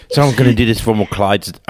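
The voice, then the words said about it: Put-on British accent. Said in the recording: “Why did I give him a British accent?”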